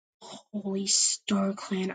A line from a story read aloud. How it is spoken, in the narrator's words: I whispered to myself